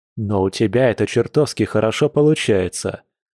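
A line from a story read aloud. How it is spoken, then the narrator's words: Snort. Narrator (Russian): хмыкнул оборотень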